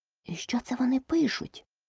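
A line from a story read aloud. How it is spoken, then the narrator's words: Whispered question. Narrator (Ukrainian): пошепки спитала Аліса у Грифона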